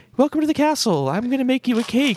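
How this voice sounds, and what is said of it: Imitates a video game princess voice. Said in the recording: “Your Princess Peach impression ... It was 100% accurate.”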